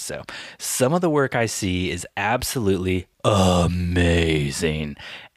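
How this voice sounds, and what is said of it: Reading in a weird voice. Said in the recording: “I'm going to say with like that weird voice.”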